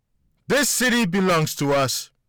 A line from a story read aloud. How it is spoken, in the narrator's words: she barked forcefully into the microphone